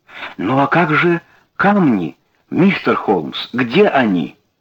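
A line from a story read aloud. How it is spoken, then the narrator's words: Banker exclaiming. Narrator (Russian): воскликнул банкир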